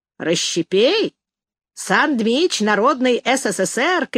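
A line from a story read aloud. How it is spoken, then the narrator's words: Boys shouting. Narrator (Russian): кричали мальчишки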